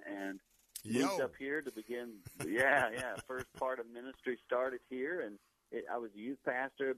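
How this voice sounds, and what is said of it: Southern US accent. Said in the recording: “you can probably hear from my voice, I'm a Southern boy, grew up in South Carolina”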